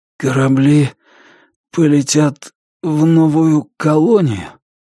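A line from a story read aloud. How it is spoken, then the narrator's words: Strained, forced words. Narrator (Russian): смог выдавить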